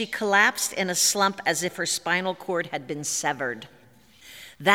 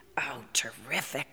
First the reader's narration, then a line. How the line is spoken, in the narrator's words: I whispered to Howard